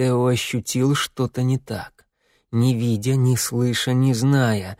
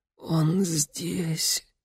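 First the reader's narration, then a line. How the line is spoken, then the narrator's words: Hoarse exhale. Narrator (Russian): хрипло выдохнула Мария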